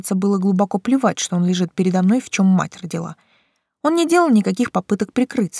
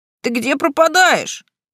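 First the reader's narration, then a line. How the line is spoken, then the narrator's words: Exclaimed. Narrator (Russian): воскликнул он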